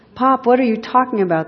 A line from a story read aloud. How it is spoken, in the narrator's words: the son screams